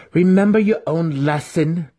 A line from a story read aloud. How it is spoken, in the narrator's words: Drizzt shouted